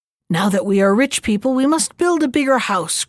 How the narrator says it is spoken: cried she, and was vexed

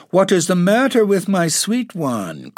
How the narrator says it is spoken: cried Dorothy

